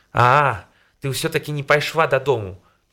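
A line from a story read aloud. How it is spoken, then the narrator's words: Shouting at her. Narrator (Belarusian): выкрыкнуў на яе Міхал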